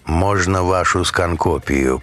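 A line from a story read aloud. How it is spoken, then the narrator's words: Even-voiced request. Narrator (Russian): попросил он ровным голосом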